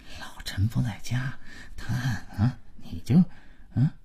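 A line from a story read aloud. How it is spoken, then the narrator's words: Audible muttering. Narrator (Chinese): 马老头跟老婆小声，但足以让姥姥听见的嘀咕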